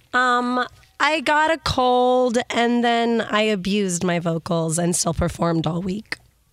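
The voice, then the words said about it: Hoarse, lost voice. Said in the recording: “have you lost your voice? Are you sick? ... Yeah, I lost my voice.”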